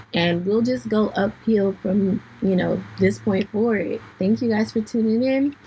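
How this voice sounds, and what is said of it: Hoarse, fading voice. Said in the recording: “sorry about my voice. I'm losing it. I've just been stressed ... my voice has not been fixed in the past 20 minutes”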